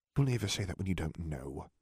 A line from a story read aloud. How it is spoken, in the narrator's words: Harry muttered